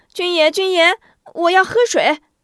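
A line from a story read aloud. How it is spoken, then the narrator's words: Loud clamoring. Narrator (Chinese): 吴中大声嚷嚷起来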